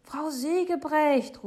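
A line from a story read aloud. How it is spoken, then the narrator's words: Call. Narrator (German): ruft Papa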